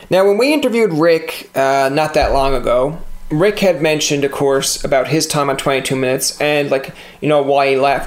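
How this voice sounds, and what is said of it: Newfoundland accent. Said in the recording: “my whole accent there ... you always have a Newfoundland accent ... that's the way you talk”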